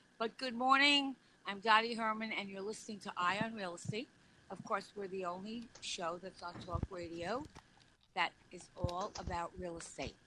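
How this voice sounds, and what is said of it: Weak, hoarse voice. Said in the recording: “my voice isn't. I'm just getting over a cold, so my voice can't really scream over the music.”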